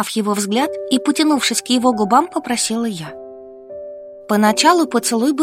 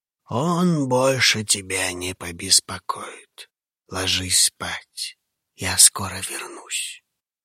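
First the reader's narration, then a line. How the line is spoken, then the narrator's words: Whisper. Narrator (Russian): Хаул прошептал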